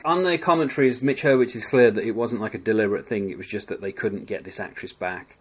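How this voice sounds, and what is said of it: Non-American English accent. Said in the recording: “As you can hear from my voice, I am not American”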